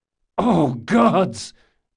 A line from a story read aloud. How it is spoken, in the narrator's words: Jean cried